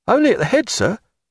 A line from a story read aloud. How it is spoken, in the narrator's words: said Callow, glancing nervously